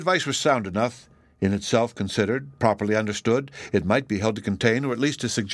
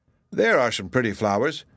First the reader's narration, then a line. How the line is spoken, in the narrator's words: he exclaimed